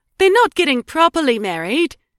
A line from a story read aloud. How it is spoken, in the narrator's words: Edie blurted gleefully